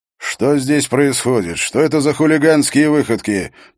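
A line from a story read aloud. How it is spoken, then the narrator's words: Booming angry voice, close by. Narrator (Russian): прогремел сердитый голос у самого его уха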